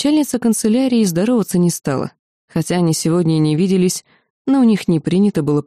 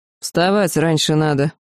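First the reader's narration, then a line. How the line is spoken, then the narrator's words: Grumbling, abbess. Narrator (Russian): буркнула настоятельница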